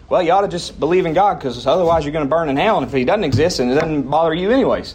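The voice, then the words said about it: Put-on redneck accent. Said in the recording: “talk like a redneck.”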